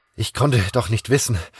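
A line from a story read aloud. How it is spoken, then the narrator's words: Panting. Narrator (German): keuchte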